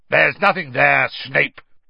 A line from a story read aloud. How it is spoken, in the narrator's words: barked Moody